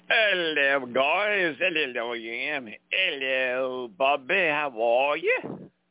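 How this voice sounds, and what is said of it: Mixed Australian and Cockney accent. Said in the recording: “What kind of off-this-world accent is that supposed to be? ... That's supposed to be a combination of Australian and Cockney English. Nobody's supposed to know what the fuck it is”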